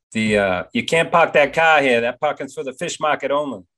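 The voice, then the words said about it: Put-on Boston accent. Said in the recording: “Boston accent ... I got a good one if you want to hear it”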